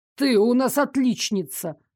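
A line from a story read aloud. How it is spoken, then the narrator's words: Snapping retort. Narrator (Russian): огрызнулся Дарек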